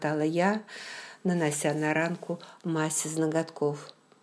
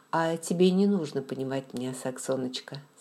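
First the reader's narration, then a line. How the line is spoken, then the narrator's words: Calm. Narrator (Russian): спокойно сказал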